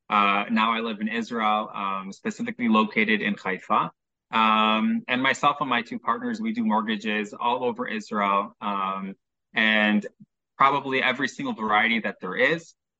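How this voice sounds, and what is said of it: Chicago American accent. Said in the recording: “you can probably tell from my accent, I'm from Chicago.”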